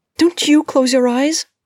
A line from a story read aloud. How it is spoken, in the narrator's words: Jean shrieked, though with Isaac holding her tongue, it sounded more like